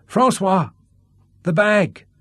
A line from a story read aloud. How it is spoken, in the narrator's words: shouted Sean